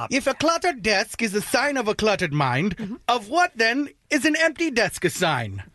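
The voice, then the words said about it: Bad Albert Einstein impression. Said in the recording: “Let me do it in my Albert Einstein voice. ... that awful voice”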